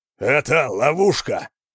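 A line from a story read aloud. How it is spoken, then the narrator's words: Growl into ear. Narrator (Russian): прорычал Хьялмар на ухо Йорина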